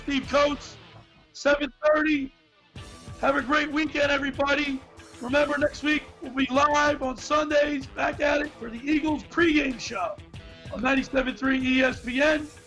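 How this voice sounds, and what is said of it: Hoarse, nearly lost voice. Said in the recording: “Trying to recoup my voice. Sorry I lost my voice today.”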